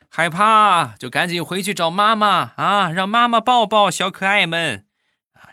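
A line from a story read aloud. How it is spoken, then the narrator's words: Loud shout. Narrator (Chinese): 我岳父大声就喊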